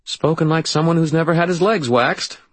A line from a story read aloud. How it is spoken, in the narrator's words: Marcy said in a nervous, forcedly jovial tone